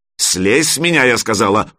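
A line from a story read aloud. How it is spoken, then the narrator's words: Growled. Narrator (Russian): прорычала Алена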